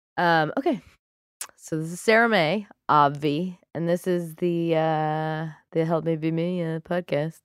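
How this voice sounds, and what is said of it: Husky, congested voice. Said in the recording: “I have a little cold. That's why I sound incredibly sexy.”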